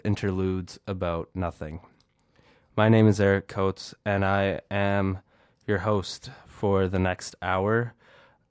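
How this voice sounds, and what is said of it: Congested, stuffy-nosed voice. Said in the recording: “I'm recovering from a bit of a cold, so you can probably hear that in my voice ... by having a stuffy nose”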